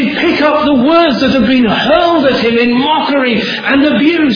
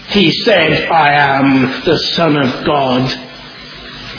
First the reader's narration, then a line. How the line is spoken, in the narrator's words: mocked the religious leaders